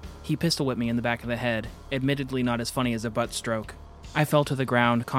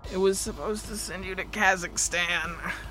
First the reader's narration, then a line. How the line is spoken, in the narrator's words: I groaned